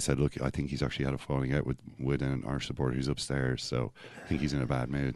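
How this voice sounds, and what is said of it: Put-on Danish accent. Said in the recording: “That accent sounded exactly like Peter Schmeichel, didn't it? ... a bit of mank in with the Dane there”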